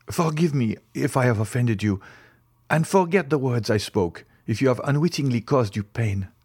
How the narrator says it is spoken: exclaimed he

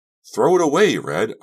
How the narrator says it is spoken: I shouted

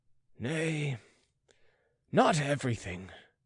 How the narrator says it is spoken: muttered the prince, falling from the perch of patronage

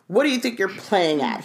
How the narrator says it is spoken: he shouted

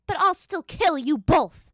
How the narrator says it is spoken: Azula said sharply

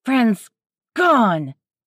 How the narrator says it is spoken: she shouted angrily

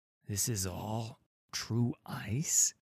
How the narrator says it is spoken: He whispered, his eyes alight with reverence and awe

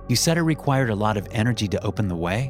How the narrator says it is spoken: I asked

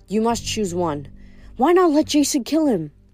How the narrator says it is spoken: Gaia seemed to be whispering to her

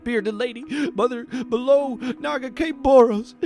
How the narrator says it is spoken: he sobbed

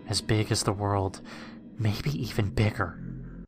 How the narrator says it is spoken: whispered, my terror

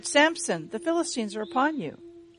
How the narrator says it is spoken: She cried

